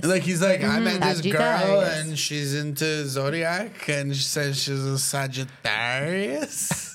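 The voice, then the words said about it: Italian-accented impression of another person. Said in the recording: “Italian intonation ... phenomenal Claudio impersonation ... That's like a drunk Claudio”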